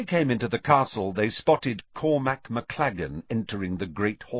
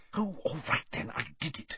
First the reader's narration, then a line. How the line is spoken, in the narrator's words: whispered